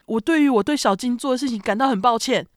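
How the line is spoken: Broken shouting over phone. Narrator (Chinese): 哭哭人断断续续的在电话那头大喊

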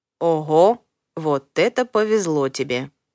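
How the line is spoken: Slow. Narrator (Russian): медленно произносит Чарли

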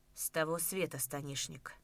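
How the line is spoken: Quiet whisper. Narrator (Russian): Таким же тихим шепотом ответил

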